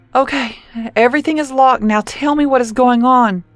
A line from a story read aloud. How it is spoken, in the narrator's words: Cora begged